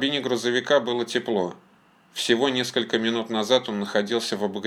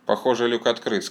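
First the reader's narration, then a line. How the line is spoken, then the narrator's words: Plain. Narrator (Russian): сказал Кирилл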